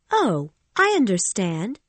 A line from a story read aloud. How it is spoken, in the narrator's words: she said happily